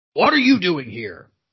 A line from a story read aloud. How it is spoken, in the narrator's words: growled the watchdog